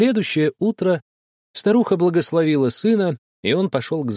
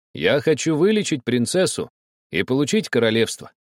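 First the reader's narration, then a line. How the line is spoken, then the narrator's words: Calm. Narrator (Russian): спокойно ответил Пер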